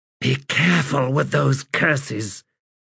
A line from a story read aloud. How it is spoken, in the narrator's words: Relata said in a hiss